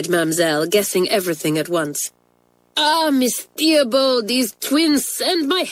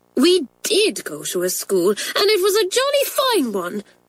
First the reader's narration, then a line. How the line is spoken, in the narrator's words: cried Pat indignantly